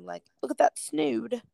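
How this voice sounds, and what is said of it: Poor imitation of English accent. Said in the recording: “a very English term ... That was a really crappy accent.”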